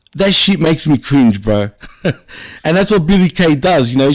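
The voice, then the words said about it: Australian ethnic wog accent. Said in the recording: “I'm known to talk like a wog, like my accent”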